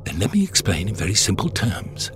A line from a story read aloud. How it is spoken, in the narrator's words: said the Doctor quietly